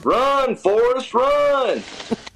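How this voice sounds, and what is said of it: Pretty good Forrest Gump impression. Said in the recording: “the police sergeant does a pretty good imitation of Forrest Gump”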